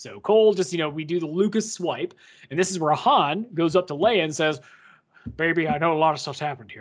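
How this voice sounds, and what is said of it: Usual voice. Nothing is said of it.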